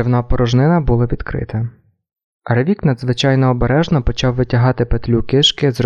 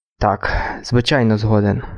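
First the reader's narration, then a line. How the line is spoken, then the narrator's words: Hoarse rasp. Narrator (Ukrainian): прохрипів Дюран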